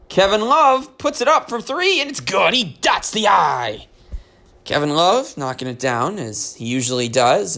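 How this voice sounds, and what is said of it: Impression of announcer Austin Carr. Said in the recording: “Austin Carr ... that's just my impression.”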